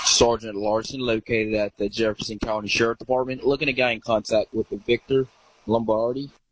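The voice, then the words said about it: Authoritative police voice, slightly Southern. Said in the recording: “That's a good police accent there. I would buy that's a sheriff. ... A little Southern. ... that's a pretty good cop accent.”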